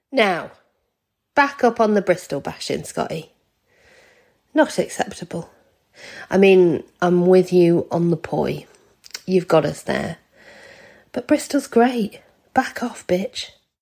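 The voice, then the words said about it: Second-generation Irish accent. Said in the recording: “that's a second generation Irish accent there”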